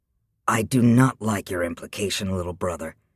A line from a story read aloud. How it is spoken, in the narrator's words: Chrysander said in an icy voice